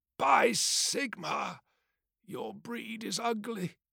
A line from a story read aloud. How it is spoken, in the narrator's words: rasped